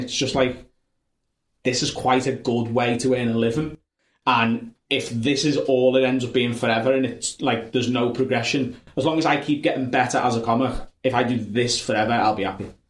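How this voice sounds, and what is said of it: North Liverpool Scouse accent. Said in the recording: “Does the accent work? ... they all think I'm Irish or Scottish ... I'm North Liverpool ... A very different accent”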